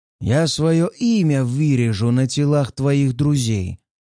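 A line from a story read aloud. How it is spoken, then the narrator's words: Hissed. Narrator (Russian): прошипел Фарад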